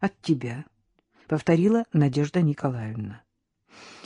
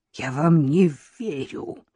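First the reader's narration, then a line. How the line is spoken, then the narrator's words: Hateful exhale. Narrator (Russian): с ненавистью выдохнула Вероника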